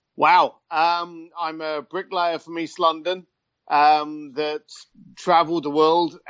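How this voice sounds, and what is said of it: British accent. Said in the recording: “I assumed you were in Australia. ... seeing as I'm British ... the accent.”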